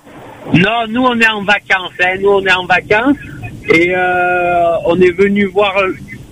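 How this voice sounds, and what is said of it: Marseille French accent. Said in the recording (French): “Vous avez un magnifique accent, il nous vient d'où ? ... De Marseille.”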